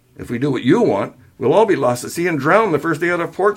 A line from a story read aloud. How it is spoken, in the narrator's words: she snapped